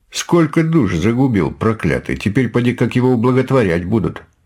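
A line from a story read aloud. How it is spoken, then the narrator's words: Plain. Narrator (Russian): сказал один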